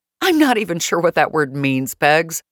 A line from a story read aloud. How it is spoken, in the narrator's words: laughed